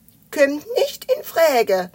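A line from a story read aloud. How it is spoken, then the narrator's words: Laughing. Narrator (German): meinte Spekulatius lachend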